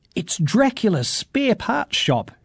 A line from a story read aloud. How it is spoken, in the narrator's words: gasped Lisa